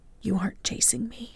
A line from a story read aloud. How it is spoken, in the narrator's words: whispered, wishing it to be so